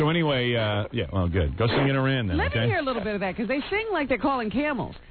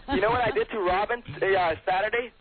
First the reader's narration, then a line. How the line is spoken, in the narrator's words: I yelled